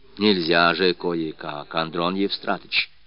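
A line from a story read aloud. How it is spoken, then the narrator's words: Confident coaxing. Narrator (Russian): уговаривала она старика своим уверенным тоном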